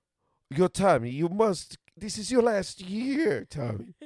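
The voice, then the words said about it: Poor put-on French woman accent. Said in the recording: “I get it right before I try a shitty impersonation... the shitty impersonation of just a French woman... This is more Spanish. This is Spanish.”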